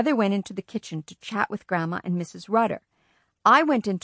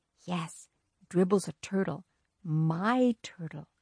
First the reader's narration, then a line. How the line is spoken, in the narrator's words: I said in a soft voice